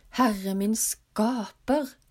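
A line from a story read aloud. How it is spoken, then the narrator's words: Frightened exclamation. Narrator (Norwegian): utbrøt konen med forskrekkede øyne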